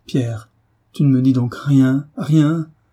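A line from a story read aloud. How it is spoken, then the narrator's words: Anguished cry. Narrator (French): s'écria David, effrayant de douleur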